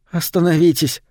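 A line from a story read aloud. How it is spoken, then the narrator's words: Hoarse whisper, female. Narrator (Russian): хрипло прошептала она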